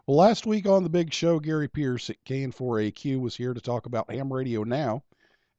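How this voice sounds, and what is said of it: Voice slightly off from illness. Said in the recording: “I hope my voice holds up. I've been fighting an illness this week, so that's why my voice is a little off this evening.”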